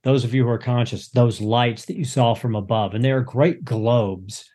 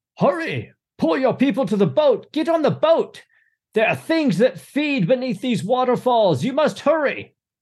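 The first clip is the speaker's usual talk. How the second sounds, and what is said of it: Screaming character voice. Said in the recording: “he's screaming”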